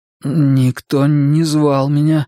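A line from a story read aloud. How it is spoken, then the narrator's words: Trembling voice. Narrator (Russian): ответил я дрожащим голосом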